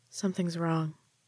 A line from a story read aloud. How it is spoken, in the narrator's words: Yara said softly